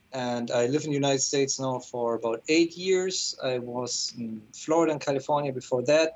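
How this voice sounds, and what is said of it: German accent. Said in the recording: “I'm originally from Germany, which explains my accent.”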